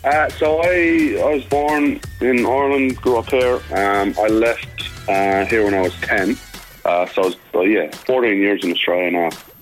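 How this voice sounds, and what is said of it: Mixed Irish and Australian accent. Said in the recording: “you've got this mixture of a Dublin and Australian accent. It's quite cool. It's quite unique.”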